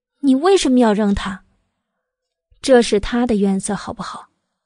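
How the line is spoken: Lazy, faintly mocking drawl. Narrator (Chinese): 百里玉华忽然似笑非笑的，懒懒的、淡淡的道

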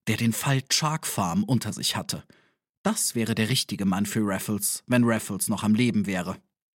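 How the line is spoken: Clerk's emphatic whisper. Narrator (German): belehrte der Angestellte in nachdrucksvollem Flüstertone

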